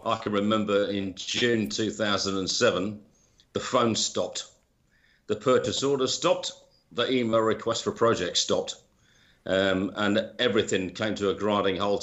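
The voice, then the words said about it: British accent. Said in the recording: “as you can probably tell by my accent, I'm originally from the UK.”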